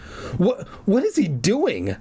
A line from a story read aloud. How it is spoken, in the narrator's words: Clark stammered